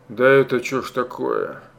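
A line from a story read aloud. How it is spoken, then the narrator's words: Creaky dry-throated voice. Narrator (Russian): Проскрипел он пересохшим горлом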